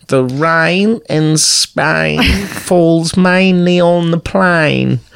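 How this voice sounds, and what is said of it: Weird Australian-sounding fake British accent. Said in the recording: “she's doing, like, a weird Australian... It's meant to be British, obviously... Like, that's Australian. That's not British.”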